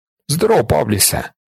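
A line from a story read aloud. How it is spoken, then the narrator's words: Exclaiming. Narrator (Ukrainian): вигукнув Манолакс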